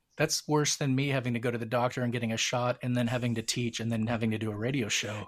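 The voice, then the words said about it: Scratchy, strained voice. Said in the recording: “my voice is a little scratchy today is I've too much talking for me.”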